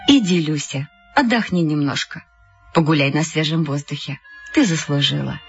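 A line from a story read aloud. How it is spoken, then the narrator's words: Tender. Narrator (Russian): Она ласково сказала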